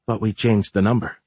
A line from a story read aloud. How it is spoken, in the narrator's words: she muttered